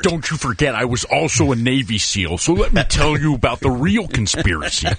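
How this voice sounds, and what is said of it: Impression of former Minnesota governor-wrestler. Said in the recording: “That's a pretty good impression.”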